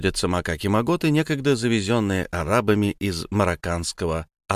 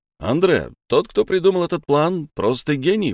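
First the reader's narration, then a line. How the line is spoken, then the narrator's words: Exclaimed. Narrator (Russian): воскликнул Наполеон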